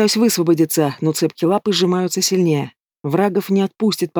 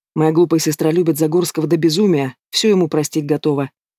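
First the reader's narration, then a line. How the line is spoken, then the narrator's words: Growling. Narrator (Russian): продолжает рычать на меня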